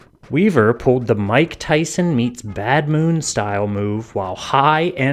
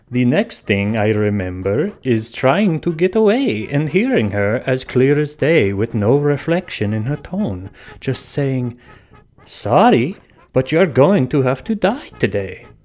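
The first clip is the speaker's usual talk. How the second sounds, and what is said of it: Mock vampire accent. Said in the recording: “here's an accent I can do, a vampire accent.”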